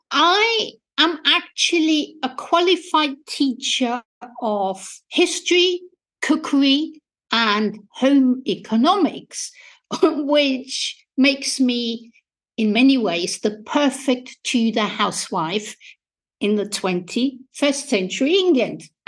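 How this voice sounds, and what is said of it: Austrian accent in English. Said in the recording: “as you might be able to hear from my accent, I was born and educated in Austria”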